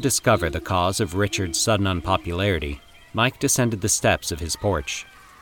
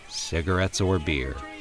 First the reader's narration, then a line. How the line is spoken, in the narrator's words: Mike muttered